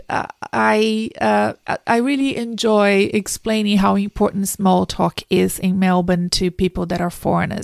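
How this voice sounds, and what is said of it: Brazilian Portuguese-accented English. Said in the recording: “as you can tell by my accent, I wasn't born in Australia ... I'm from South America. I'm from Brazil originally.”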